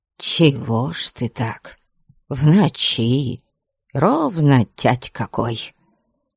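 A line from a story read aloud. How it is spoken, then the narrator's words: Grumbling. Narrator (Russian): Заворчала она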